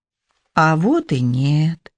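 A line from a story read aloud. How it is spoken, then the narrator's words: Purring. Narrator (Russian): промурлыкала Лиза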